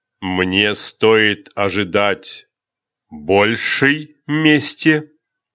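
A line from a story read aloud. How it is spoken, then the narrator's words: Furious growl. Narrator (Russian): прорычал впервые теряющий над собой контроль император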